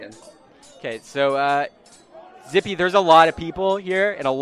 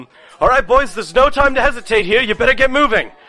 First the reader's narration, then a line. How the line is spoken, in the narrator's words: I yell back to the guys